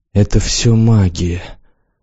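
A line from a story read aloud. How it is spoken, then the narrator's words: Quiet trembling voice. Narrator (Russian): сказала она тихим, дрожащим голосом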